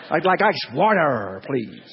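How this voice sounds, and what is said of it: Drunken New York accent. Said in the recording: “impersonate the way I think that you say water... I sound like a kind of inebriated New York hot dog salesman”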